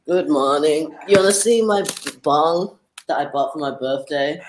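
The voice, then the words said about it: Speaks with a strong accent. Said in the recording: “a real accent ... I love his accent”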